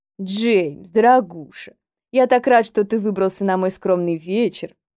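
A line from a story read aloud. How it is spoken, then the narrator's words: Mocking man. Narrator (Russian): насмешливо заговорил красивый худощавый мужчина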